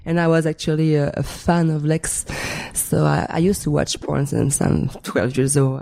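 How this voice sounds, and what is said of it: French Canadian accent. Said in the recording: “I'm French Canadian. Yes, you can tell ... big accent still”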